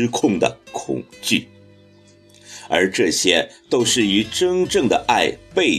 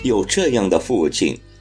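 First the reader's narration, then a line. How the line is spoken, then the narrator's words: Sighing with feeling. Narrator (Chinese): 许多人感叹地说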